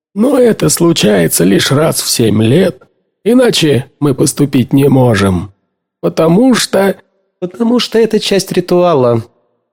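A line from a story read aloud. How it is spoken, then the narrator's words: Gloomy. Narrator (Russian): мрачно закончила она фразу Эдена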